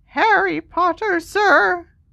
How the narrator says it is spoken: squeaked Dobby

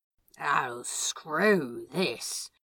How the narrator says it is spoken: Crowley mumbled into Aziraphale's lips

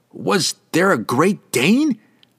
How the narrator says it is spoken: Franklin yelled back, wincing under the drowning hum of the bugs

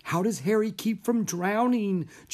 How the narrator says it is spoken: Jack wondered anxiously

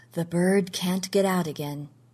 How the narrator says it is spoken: he said softly

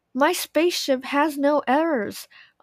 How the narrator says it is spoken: Oliver cried

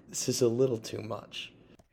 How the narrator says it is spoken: said I, laughing

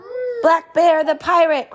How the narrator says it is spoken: cried Papa

